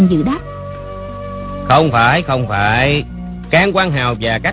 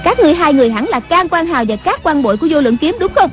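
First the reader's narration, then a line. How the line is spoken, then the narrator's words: Loud shout. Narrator (Vietnamese): Người đứng giữa quát lớn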